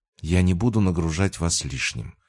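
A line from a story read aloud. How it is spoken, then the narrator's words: Calm. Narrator (Russian): произнесла спокойно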